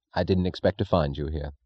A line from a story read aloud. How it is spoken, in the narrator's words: said Francisco